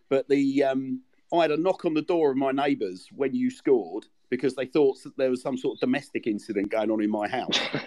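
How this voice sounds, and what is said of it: London-Kent accent, not local Swindon. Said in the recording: “I live on the London-Kent border ... You probably tell from the accent I'm not local to Swindon”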